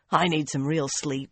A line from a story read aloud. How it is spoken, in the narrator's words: Swan muttered